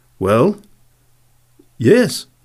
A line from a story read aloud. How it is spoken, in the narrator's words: stammered